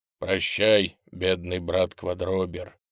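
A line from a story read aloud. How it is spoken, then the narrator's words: Quiet. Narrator (Russian): тихо сказал Миша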